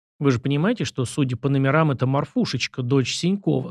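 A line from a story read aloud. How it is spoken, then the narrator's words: Plain. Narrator (Russian): сказал я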